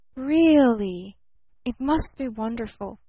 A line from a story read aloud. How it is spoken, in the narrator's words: breathed little Eve Edgerton